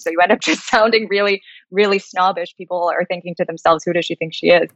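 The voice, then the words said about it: American accent. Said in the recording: “based off of my accent, you'll think, oh, she's American.”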